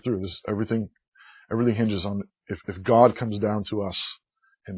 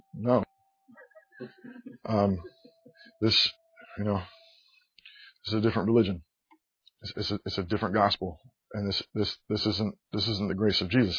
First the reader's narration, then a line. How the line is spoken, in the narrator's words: I just gently said